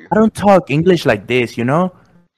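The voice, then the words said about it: Exaggerated Mexican accent. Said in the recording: “your typical, you know what I'm saying, Mexican accent”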